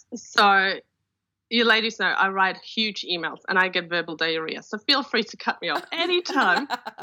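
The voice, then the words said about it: Polish accent. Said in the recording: “she has a really fun accent... you're from Poland, and now you live in Australia”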